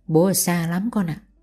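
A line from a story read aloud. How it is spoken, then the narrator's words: Awkward, soft. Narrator (Vietnamese): Ngọc lúng túng khẽ nói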